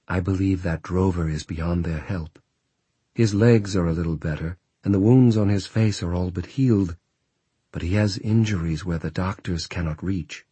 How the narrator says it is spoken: she dropped her voice

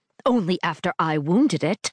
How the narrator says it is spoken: Glane snaps

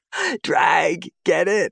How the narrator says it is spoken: He laughs hysterically in a high-pitched hyena voice, clearly on his way to being messed up already

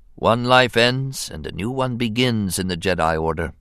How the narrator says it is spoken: he murmured, almost to himself

